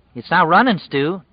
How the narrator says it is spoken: Tom said anxiously

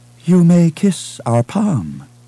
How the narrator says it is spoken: she said in a languid Kuati accent

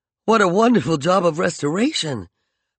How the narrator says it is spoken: Peregrine exclaimed, enchanted by the beautiful freshness of the reliefs they passed

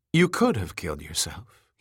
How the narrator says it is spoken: he said calmly

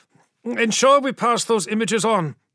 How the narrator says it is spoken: said Rannikborn, his voice hardening as he calculated how long they had

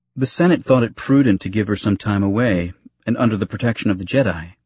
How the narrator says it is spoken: he said, his tone casual, showing no reflections of the pain he was feeling

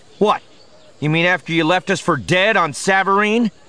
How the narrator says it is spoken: Han snapped

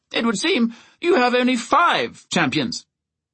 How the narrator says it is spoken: he said cheerfully

